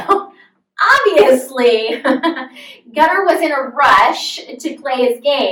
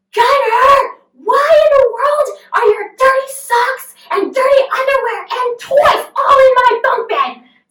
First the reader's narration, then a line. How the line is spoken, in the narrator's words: from a distance him yelling